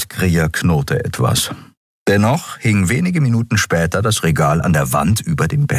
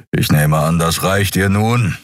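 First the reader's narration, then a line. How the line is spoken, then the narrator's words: Impatient growl. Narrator (German): knurrte Kero ungeduldig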